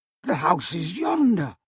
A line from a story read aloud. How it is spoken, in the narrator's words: Scrooge exclaimed